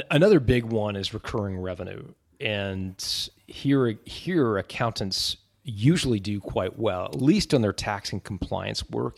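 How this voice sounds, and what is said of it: Canadian accent. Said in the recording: “my funny Canadian accent”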